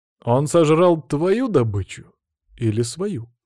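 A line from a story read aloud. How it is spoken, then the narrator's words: Plain question. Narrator (Russian): спросил я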